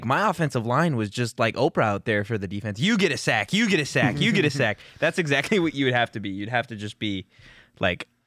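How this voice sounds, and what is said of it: Imitates a high school coach. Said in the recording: “a guy impersonates a high school coach”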